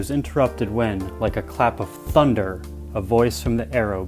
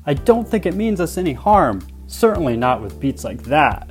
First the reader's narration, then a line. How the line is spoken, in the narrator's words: called out